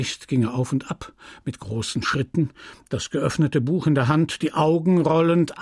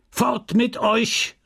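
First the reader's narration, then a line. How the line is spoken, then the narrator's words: Shouted imperiously. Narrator (German): rief er herrisch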